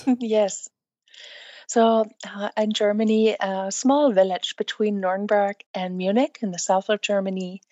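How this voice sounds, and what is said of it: Slight non-native English accent. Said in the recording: “you don't sound like English is your first language ... your English is excellent. It's just I can hear a slight accent”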